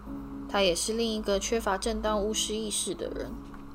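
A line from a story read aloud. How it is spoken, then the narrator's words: Slow speech. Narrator (Chinese): 马份缓缓说道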